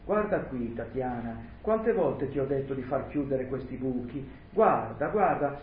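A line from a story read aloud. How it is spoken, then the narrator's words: Exclamation. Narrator (Italian): esclamò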